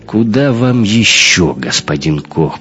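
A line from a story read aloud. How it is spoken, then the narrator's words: Grumbling mutter. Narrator (Russian): пробурчал бармиксер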